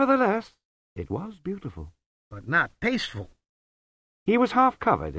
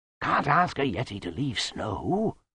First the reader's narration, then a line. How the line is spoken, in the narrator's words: whispered Lutzer